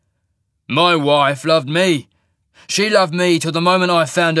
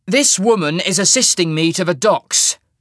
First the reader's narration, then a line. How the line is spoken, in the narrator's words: said haughtily, trying to instill authority into the lie